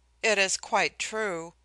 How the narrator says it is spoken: I answered miserably

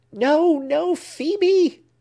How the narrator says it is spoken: he screamed

